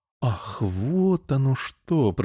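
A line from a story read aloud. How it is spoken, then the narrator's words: Drawn-out. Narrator (Russian): протянула девушка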